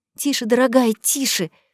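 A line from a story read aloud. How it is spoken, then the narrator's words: Whisper in ear. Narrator (Russian): шепнула на ухо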